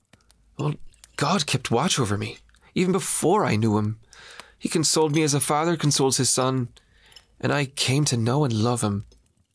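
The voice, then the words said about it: Irish accent. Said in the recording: “And so did the accent. You came back sounding like a true Irishman.”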